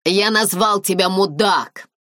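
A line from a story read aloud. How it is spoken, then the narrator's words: Shouted. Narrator (Russian): закричал Дэрил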